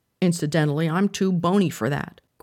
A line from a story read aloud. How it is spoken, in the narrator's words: growled Panther